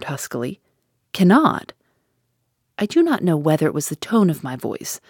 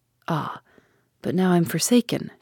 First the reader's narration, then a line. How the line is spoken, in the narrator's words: she murmured